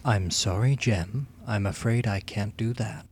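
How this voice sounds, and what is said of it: HAL computer voice impression. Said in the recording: “It's supposed to be Hal. ... That's better.”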